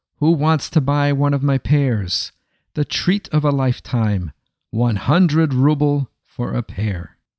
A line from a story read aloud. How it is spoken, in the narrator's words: in a strong voice he called out